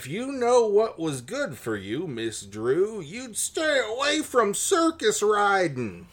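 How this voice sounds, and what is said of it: Cartoon prospector Western cowboy accent. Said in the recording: “I can't figure out exactly the accent he's supposed to have, but I'm I'm getting cartoon prospector ... I definitely got like Western cowboy”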